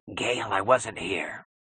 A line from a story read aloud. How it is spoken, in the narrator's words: he gulped in a cracked whisper that was not a voice at all